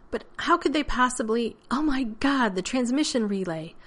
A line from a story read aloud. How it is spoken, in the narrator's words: Rodney gasped as the bolt of inspiration struck